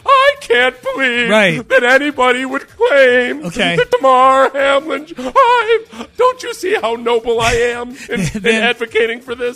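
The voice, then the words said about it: Weird mocking character voice. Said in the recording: “did that weird voice”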